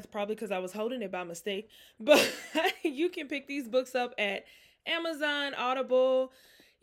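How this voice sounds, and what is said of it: Out of breath, breathy speech. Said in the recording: “I'm out of breath”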